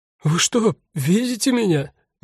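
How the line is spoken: Sudden, sobbing. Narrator (Russian): неожиданно спросил рыдающий

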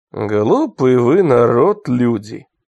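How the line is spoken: Muffled young voice. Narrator (Russian): сказал юноша глухим своим голосом

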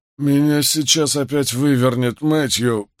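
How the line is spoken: Hoarse croak. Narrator (Russian): прохрипел Кови

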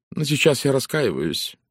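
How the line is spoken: Gloomy. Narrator (Russian): мрачно произнесла Валери

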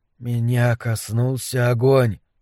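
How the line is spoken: Whisper. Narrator (Russian): прошептал Дебона

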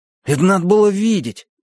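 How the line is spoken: Repeating, chattering. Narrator (Russian): приговаривал он

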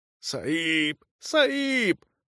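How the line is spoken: Hoarse, breathless. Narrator (Russian): прохрипел сингалезец и, тяжело дыша

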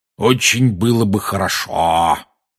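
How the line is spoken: Spiteful tone. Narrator (Russian): произнес дядя зловредным тоном

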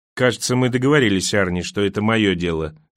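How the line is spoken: Plain. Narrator (Russian): сказал Бахман

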